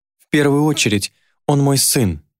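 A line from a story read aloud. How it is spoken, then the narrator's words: Bewildered exclamation. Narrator (Russian): воскликнула Елена в недоумении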